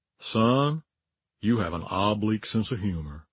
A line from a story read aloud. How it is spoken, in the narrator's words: said in his beautiful Mississippi drawl